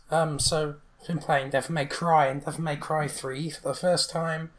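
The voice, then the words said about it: Strained, fading voice. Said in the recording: “my voice is really starting to go now.”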